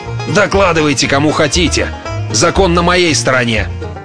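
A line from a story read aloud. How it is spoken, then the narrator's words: Growling. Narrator (Russian): Смезерс зарычал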